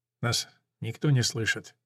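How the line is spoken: Quiet, weak. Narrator (Russian): тихо спрашивает раненый

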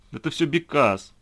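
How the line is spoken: Tearful exclamation. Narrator (Russian): сквозь слезы воскликнула Лидия

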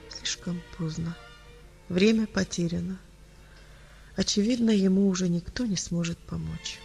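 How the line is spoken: Quiet. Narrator (Russian): тихо произнес

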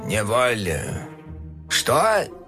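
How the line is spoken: Hoarse grumbling. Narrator (Russian): хрипло проворчал он

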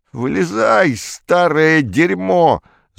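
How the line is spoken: Yelling. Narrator (Russian): заорал он

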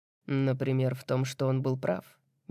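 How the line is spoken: Soft. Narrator (Russian): мягко произносит Кай

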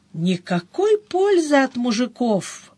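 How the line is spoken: Sorrowful sigh. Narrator (Russian): горестно вздохнула сестрица

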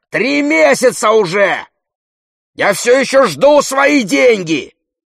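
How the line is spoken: Yelling. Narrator (Russian): Хозяин заорал

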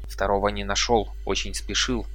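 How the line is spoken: Whispered explanation. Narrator (Russian): объяснил он шепотом

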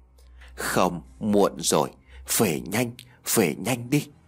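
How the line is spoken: Old woman, breathless. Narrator (Vietnamese): bà Liễu thở hổn hển

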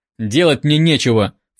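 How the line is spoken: Scornful snort. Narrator (Russian): фыркнул терапевт

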